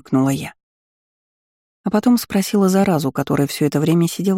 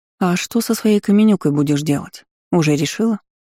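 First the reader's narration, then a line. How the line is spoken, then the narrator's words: Plain. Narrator (Russian): спросила я ее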